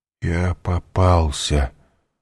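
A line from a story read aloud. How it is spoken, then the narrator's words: Startled mumble. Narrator (Russian): вздрогнув, пробормотал Данглар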